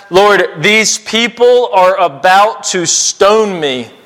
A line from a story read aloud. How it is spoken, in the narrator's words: he says